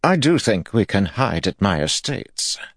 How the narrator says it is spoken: Imaren said in a haughty voice

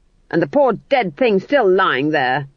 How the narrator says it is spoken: snapped Granny

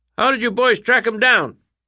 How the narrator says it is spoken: a reporter shouted

